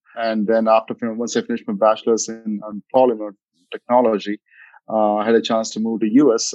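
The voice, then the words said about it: Indian-accented English. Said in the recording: “as you can see from my accent, I'm from India”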